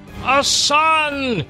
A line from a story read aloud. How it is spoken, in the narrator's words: shouted Melchior